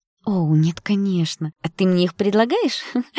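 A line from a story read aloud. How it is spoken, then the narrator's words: Giggled. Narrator (Russian): хихикнула Яна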